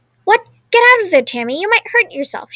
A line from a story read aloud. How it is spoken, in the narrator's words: exclaimed